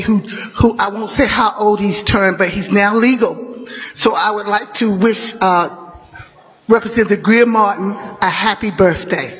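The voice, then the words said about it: Hoarse, partly lost voice. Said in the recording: “excuse my voice. I've kind of got lost it lately”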